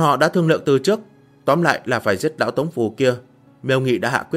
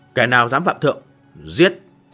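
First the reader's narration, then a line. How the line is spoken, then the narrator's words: Roaring together. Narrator (Vietnamese): Đơn Biểu Nghĩa và Khâu Thiệu Quần cùng nhau gầm lên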